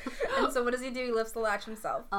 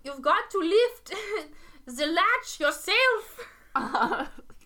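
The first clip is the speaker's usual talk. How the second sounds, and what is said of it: Bad German grandmother accent. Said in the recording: “That was a terrible rendition of a German grandmother ... doing a German accent”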